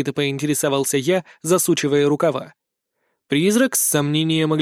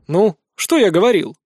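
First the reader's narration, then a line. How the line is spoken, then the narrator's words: Wry snort. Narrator (Russian): хмыкнул я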